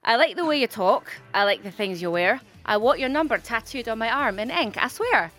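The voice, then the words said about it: Put-on Scottish accent. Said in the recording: “We're going to start with Scottish ... That's kind of like Edinburgh. ... That's Scotland.”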